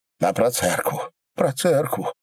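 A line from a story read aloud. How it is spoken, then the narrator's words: Priest whispering plea. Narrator (Russian): шепотом просил поп Куприян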